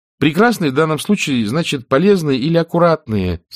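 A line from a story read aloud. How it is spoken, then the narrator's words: Bored, weary explaining tone. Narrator (Russian): сказала Анафима таким скучным тоном, словно ей уже приходилось это объяснять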